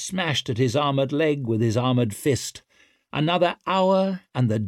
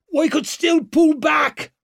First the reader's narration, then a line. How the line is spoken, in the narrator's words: roared Antalp over the noise